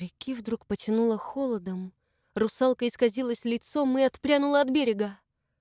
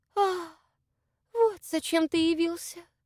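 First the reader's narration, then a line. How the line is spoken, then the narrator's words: Sad sigh. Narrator (Russian): Русалка погрустнела, вздохнула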